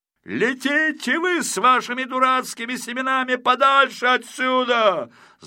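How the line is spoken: Yelled at top of lungs. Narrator (Russian): заорал Ригель во все горло

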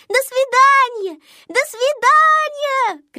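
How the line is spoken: Little girls shouting. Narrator (Russian): кричали малышки

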